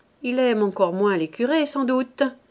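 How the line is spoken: Sneering, snickering voice. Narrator (French): concluait une voix en ricanant

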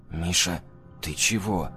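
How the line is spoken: Whisper. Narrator (Russian): прошептал я

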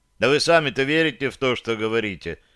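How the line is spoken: Rude interruption. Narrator (Russian): грубо оборвал ее я

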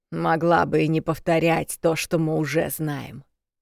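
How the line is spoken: Grumbling grandmother. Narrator (Russian): проворчала бабуля

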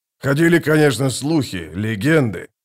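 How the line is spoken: Muttered. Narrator (Russian): пробормотал Гурни

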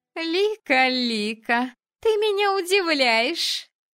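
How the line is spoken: Princess giggling. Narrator (Russian): хихикнула принцесса

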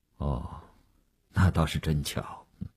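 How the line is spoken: Flat, indifferent. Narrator (Chinese): 吴长天淡淡地说

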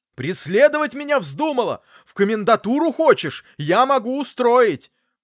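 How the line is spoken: Yelling. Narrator (Russian): заорал

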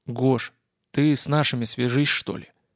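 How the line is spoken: Quiet boy's prompt. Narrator (Russian): тихо подсказал пацан

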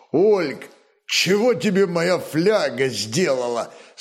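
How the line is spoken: Question struggling through laughter. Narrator (Russian): С трудом сквозь смех спросил Рарак, не мог ничего молвить от душившего его хохота

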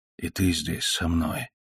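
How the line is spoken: Whisper. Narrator (Russian): прошептал Трофимов Пушкину

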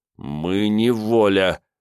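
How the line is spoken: Through gritted teeth. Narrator (Russian): сквозь зубы процедил Рыжий

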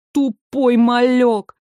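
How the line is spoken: Despairing groan. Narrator (Russian): Лорд застонал в отчаянии

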